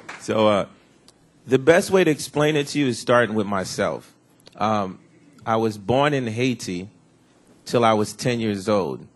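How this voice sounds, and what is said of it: Slightly hoarse voice. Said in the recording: “my voice is a little hoarse, ... it's because last night I was in a jam session with the Buffets till like 5 in the morning”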